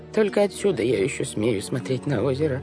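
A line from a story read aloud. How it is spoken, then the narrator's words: Quiet voice. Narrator (Russian): тихим голосом произнесла тетя Жозефина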